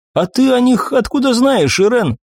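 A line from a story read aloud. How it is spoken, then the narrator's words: Mocking. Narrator (Russian): насмешливо прищурился я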